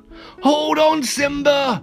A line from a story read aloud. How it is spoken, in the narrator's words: cried